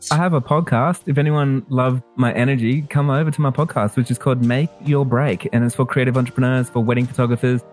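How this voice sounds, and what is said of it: Australian accent, energetic. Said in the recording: “Australian accent, passionately talking about anything and everything”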